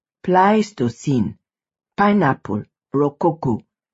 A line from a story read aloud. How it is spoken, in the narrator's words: Chiku said